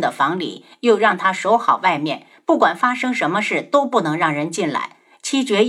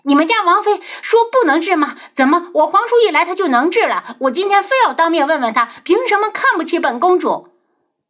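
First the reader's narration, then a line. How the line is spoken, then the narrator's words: Loud clamoring from outside. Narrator (Chinese): 东方颜月在外面吵吵嚷嚷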